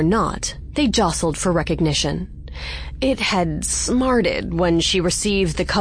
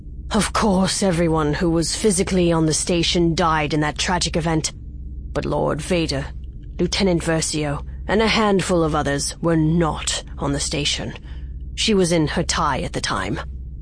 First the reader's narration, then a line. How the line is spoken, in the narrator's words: Admiral Versio sighed heavily and said, an edge to his deep, rumbling voice